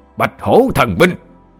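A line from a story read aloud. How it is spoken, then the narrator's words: Loud roar. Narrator (Vietnamese): cậu đại gia lớn giọng gầm lên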